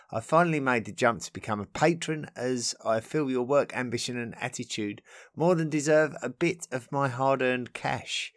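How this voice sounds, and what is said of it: Essex English accent. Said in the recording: “I love the accent. As a fellow Essex boy myself”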